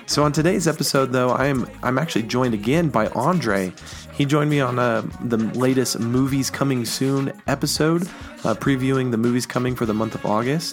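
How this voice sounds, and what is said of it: Raspy, sick-sounding voice. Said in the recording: “this is my incredibly raspy, sick voice ... my voice just a little bit off”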